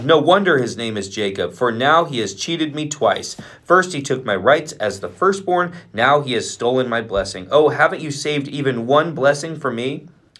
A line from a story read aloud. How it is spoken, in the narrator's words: exclaimed